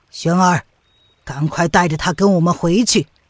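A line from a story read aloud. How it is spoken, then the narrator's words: Deep, grave voice. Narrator (Chinese): 吴建之 遂沉声的道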